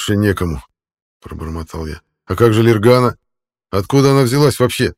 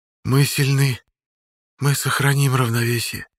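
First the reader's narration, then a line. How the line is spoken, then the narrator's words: Whispered. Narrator (Russian): прошептала Юрий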